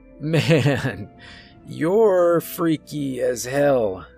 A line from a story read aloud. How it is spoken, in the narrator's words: Jacob chuckled nervously